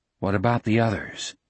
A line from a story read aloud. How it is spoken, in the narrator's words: Jack asked quietly